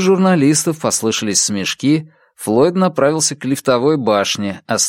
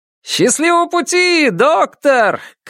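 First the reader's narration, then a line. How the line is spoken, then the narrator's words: Shout. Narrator (Russian): крикнул кто-то из них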